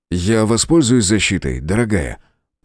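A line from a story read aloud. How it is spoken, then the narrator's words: Muttered. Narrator (Russian): пробормотал он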